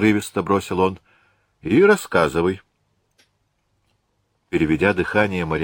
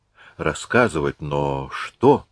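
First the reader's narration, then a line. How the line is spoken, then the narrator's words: Soft question. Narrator (Russian): мягко спросила она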